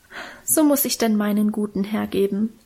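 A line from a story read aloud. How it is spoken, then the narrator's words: Moved sigh. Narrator (German): seufzte Minchen und schien selber gerührt von ihrer Opferbereitschaft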